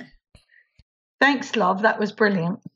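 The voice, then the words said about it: Put-on British accent. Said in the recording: “the British accent.”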